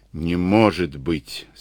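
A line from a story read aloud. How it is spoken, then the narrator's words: Plain. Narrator (Russian): сказал Штоквиц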